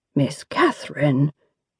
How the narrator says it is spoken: the youth murmured

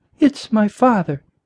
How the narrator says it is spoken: she said softly

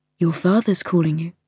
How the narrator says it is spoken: said very quietly

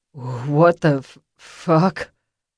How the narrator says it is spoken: the guy slurred

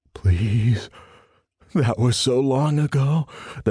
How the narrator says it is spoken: the man whimpered

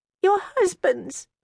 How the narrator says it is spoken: Charmian cried

